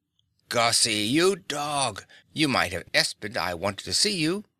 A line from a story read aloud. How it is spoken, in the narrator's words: Fay cried